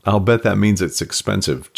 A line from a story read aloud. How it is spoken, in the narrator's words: Jen said with a laugh